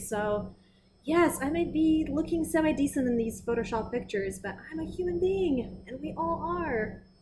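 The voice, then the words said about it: Russian-tinged British English accent. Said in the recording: “I have an accent that I absolutely despise ... I notice a little something there, but I can't identify ... I was born and raised in Russia, but I learned British English for my whole life since I was seven”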